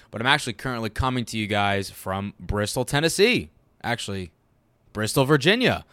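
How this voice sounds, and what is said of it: Sick voice from a cold. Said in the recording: “tell from my voice, but I'm a bit under the weather this week. Yeah, a cold bug bit me.”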